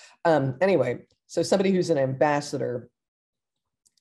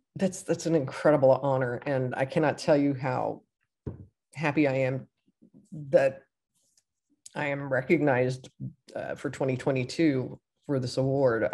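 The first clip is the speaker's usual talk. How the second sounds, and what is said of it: Choked-up, emotional voice. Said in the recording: “I'm kind of getting a little choked up here.”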